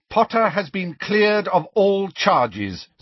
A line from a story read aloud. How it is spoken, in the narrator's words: said McGonagall even more loudly